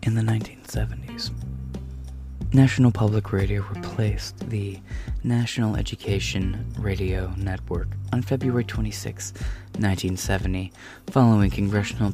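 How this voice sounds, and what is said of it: NPR radio announcer voice. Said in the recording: “in an NPR voice”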